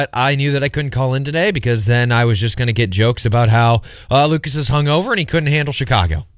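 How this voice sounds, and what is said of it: Sounds sick. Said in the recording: “I'm pretty sick. ... That first line didn't sound too good. I don't sound that bad. I sound sick”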